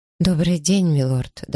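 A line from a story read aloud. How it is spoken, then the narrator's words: Trembling voice. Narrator (Russian): дрожащим голосом произнесла Элиза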